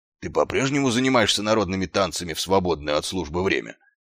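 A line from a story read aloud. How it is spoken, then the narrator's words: Plain. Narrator (Russian): спросил сержант Колон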